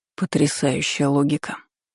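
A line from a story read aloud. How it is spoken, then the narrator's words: Dragon muttering. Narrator (Russian): пробормотал дракон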